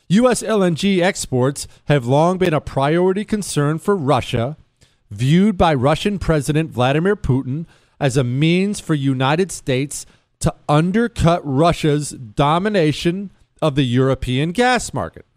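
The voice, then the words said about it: News-reader journalist voice. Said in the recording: “I'm continuing in my journalist voice.”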